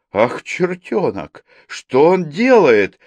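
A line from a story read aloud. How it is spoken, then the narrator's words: Admiring exclamation. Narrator (Russian): с восхищением воскликнул Акимов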